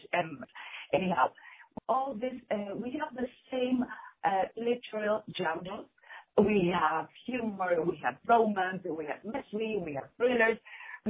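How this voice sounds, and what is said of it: Non-native English accent. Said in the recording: “excuse myself because of my accent. I'm not really fluent in English.”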